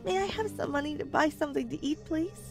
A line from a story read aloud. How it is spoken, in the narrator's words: She begged